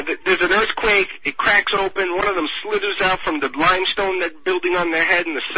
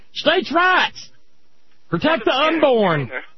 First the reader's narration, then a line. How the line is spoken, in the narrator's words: holler